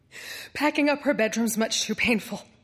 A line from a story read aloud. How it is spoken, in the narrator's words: mother would tell, choking back the tears